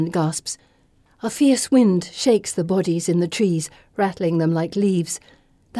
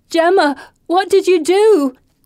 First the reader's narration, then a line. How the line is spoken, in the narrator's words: Anne wails